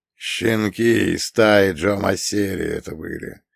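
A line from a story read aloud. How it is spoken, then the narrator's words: Hoarse old man muttering. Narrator (Russian): хрипло пробурчал старик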